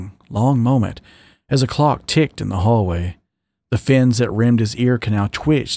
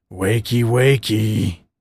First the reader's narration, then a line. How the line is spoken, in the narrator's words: Dan rumbled into her ear fin